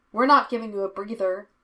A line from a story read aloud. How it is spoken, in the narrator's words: she shouted above the music